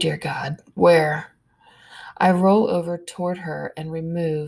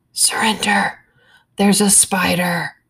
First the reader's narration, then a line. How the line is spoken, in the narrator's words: Stalker C whispers